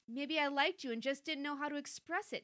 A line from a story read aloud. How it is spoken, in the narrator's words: Nick cried